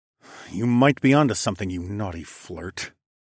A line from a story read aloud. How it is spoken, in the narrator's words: I snarled